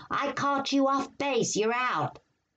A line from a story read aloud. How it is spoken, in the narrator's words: some raucous kid yelling